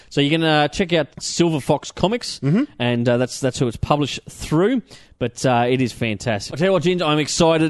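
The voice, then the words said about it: Excited, breathless speech. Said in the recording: “You are excited. You're running out of breath here, man.”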